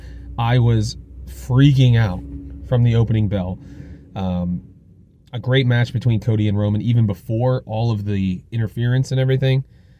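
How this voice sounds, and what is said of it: Hoarse, strained voice. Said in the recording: “lost my voice. You might not be able to hear it now. I lost my voice”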